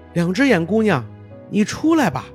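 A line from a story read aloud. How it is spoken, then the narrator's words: Hopeful loud call. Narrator (Chinese): 骑士希望见到他，便大声喊道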